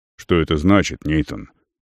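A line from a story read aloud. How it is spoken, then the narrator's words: Quiet question. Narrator (Russian): Так же негромко, как Арон до этого, спросил Керанин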